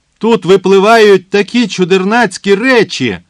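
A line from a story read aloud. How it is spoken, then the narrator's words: Merry laughing. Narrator (Ukrainian): Кана весело сміялася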